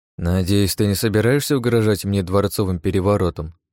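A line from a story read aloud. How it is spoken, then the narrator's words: Grumbling mutter. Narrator (Russian): буркнул Павел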